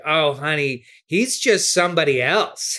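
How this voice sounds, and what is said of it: Impression of Juliette Lewis. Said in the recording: “that was my Juliet impression. ... That's not a bad Juliet Lewis at all, actually.”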